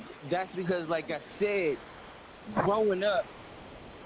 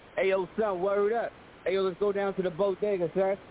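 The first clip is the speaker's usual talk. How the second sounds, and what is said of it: Put-on New York accent. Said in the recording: “Look at his accent. ... that, that's New York.”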